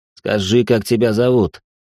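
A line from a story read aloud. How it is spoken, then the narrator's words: Through clenched teeth. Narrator (Russian): процедил он сквозь сжатые зубы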